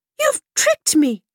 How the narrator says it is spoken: cried the princess, with anger

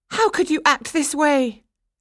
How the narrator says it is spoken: she cried

